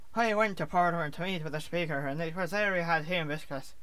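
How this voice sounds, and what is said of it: Put-on Northern Irish accent. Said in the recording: “I have the Northern Irish accent.”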